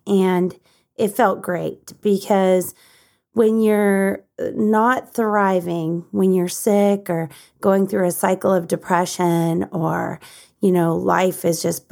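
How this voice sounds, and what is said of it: Rough, slightly hoarse voice. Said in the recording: “my voice sounds a little rough ... I am recovering from a head cold ... I just got off the treadmill”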